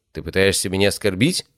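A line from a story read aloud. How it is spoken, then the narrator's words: Grumbling. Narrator (Russian): проворчал Тапио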